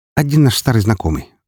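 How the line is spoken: Tossed over shoulder. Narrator (Russian): бросила она через плечо

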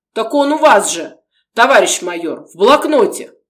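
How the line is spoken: Deep bass voice. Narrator (Russian): пробасил Арсентьев

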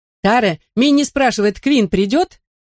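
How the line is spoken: Shout. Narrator (Russian): крикнула Конни

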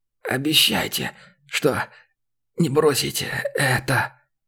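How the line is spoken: Hoarse dying wheeze. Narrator (Russian): прохрипел умирающий

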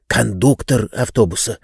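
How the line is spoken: Whisper. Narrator (Russian): прошептал Ободей

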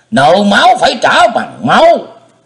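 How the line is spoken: Old man's furious shout. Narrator (Vietnamese): Lão quái nhân thét vàng

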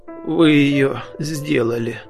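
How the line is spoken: Hoarse voice. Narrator (Russian): сказал Задира сипло

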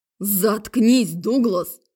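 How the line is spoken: Barked shout. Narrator (Russian): рявкнул Майк

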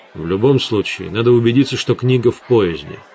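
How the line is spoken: Plain. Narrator (Russian): сказал Гессер

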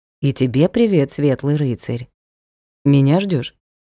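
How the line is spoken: Slightly trembling voice. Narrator (Russian): спросил Ник и добавил чуть дрогнувшим голосом

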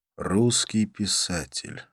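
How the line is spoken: Sighed. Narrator (Russian): вздохнул я

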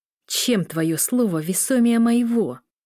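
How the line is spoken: Hissing, spitting words. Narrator (Russian): Оркид с шипением плевался словами

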